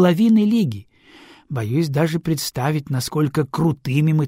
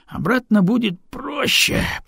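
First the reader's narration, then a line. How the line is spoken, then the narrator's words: Grumble. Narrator (Russian): проворчал Аксель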